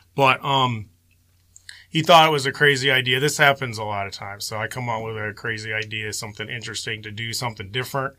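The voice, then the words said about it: Slightly hoarse voice. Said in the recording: “I'm a little hoarse right now. Getting over this cold, Michigan cold.”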